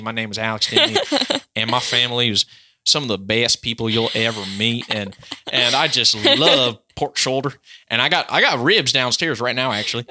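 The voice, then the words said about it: Exaggerated Tennessee country accent. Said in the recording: “I used to be totally Tennessee, and I was from Memphis, Tennessee ... that was super cringe. But that's how I talked when I first came to California, and I was”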